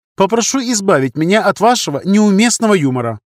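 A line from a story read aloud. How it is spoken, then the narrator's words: Irritated reply. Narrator (Russian): раздраженно ответил конструктор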